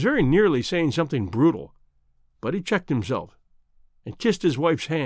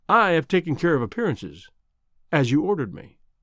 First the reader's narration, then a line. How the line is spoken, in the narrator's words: She said quite calmly